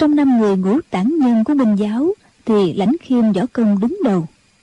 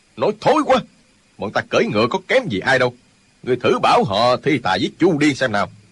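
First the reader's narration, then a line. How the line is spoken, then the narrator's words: Angry. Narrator (Vietnamese): Chu Điên giận dữ nói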